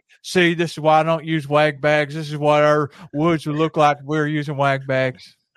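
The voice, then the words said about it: Good impression of an old man's voice. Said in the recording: “That's my old man Jason voice... That was a very good impression, though. That's a very good impression.”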